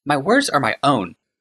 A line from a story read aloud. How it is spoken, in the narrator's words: snapped Ashnod